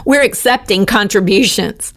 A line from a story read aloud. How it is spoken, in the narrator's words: laugh it off by saying